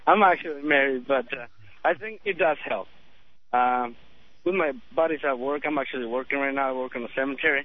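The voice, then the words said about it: Hispanic, likely Mexican accent. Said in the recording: “another guy with a Hispanic, I think Mexican accent”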